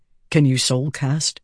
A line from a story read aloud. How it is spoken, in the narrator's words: Dalinar asked softly